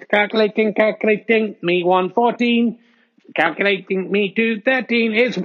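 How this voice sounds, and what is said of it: Robot voice. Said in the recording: “Robot Voice”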